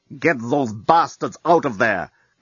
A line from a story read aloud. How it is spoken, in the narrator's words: growls Flortin Rimanquez, the chief of police and rabbits